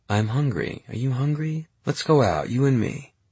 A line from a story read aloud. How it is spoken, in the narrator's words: she said, as soothingly as possible